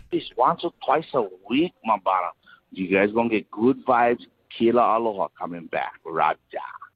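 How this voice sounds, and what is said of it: Fake Hawaiian accent, like Brad Pitt. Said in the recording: “that was definitely a white guy trying to sound not white, wasn't it? ... It could have been a Hawaiian guy. ... meet Joe Black at first. ... Brad Pitt accent. That's what it sounded like.”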